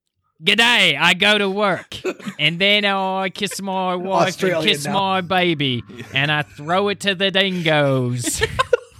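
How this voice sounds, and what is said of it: Imitates another person's voice, Aussie-like. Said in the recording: “your impression, Liam Gallagher is a villain from Sweeney Todd ... slash ... Crocodile Dundee”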